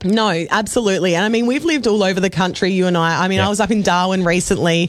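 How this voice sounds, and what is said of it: Relaxed Australian accent. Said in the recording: “I bloody love our accent... It's a great accent... I just love how lazy it is. It sounds so comfortable. It sounds friendly”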